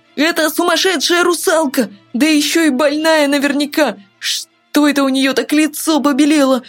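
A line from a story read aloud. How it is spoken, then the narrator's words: Frightened scream. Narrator (Russian): В страхе закричал Тин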